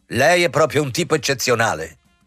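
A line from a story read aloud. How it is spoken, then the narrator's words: Imperious, cutting voice. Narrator (Italian): Marder disse con voce imperiosa e pungente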